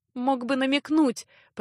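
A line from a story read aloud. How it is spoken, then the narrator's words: Sobbing. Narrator (Russian): прорыдала Леа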